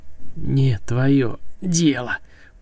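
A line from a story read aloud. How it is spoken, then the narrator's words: Hissed. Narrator (Russian): прошипела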